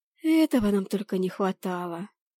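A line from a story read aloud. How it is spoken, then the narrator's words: Sighed. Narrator (Russian): вздохнула я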